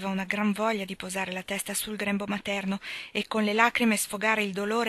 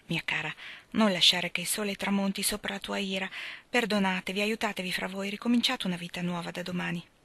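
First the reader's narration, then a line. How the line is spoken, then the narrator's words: Gentle whisper. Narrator (Italian): la signora Marcia dolcemente le bisbigliò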